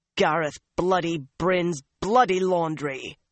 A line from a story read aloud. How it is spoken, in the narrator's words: the other woman snarled